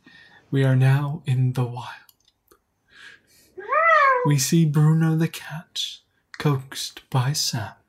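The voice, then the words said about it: Poor David Attenborough impression. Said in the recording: “my David Attenborough impression, if it was any good, which it isn't”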